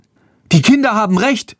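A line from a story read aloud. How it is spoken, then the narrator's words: Young woman calling out. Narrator (German): ruft eine junge Frau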